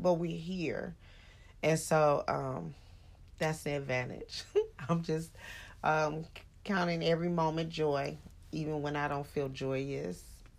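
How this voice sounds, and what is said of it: Sleepy, tired-sounding voice. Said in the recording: “You sound a little sleepy.”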